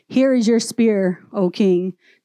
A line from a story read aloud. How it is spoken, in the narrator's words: David replied